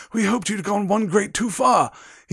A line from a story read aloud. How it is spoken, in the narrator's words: Weasley panted